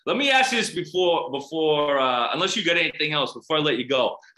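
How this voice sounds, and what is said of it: Strong South Boston accent. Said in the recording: “I hear that South Boston accent coming through loud and clear”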